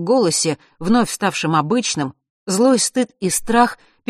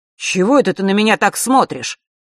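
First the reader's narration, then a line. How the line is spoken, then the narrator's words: Sharp. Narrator (Russian): резко продолжил он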